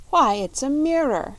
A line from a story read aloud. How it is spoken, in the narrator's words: she cried